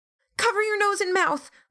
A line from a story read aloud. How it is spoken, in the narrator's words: Lillian shrieked